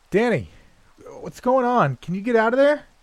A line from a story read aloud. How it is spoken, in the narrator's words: I called out